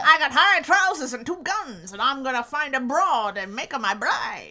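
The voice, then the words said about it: Put-on old-timey transatlantic accent. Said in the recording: “this is the transatlantic accent ... high trousers”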